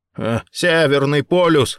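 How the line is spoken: Scoffing snort. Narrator (Russian): хмыкнул Рэй

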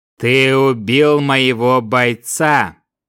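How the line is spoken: Low monotone voice. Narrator (Russian): низким и монотонным голосом сказал смотритель

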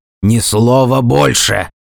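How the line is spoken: Barked. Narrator (Russian): рявкнул я

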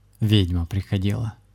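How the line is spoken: Gloomy spirit voice. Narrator (Russian): мрачным голосом ответил дух

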